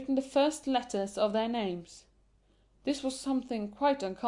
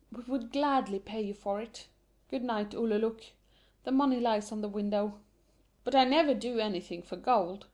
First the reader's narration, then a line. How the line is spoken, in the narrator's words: they sigh so deeply and say